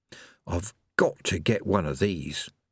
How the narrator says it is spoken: he murmured

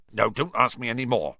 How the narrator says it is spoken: said Hagrid gruffly

